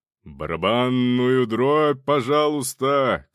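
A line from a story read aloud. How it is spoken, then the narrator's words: Shouted. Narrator (Russian): крикнул Роман Романович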